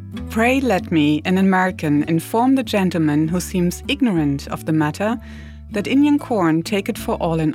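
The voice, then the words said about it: Ben Franklin impression, German accent. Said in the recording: “my best Ben Franklin impersonation ... Benjamin Franklin with a German accent”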